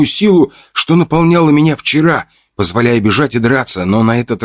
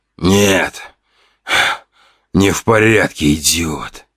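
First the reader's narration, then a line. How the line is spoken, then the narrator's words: Hissing. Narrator (Russian): Прошипел он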